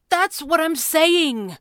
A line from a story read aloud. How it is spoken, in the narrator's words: Jeremy agreed in a loud voice